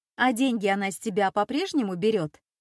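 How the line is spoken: Snide question. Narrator (Russian): ехидно спросила Лина

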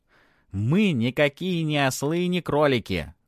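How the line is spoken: Loud and clear. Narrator (Russian): громко и отчетливо произносит один из ушастых

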